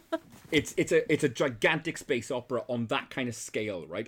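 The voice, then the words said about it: Imitates another person's accent. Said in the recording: “I'm doing a Corey... I've got accent osmosis.”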